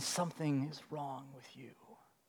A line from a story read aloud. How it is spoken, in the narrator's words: the accusing voice whispers again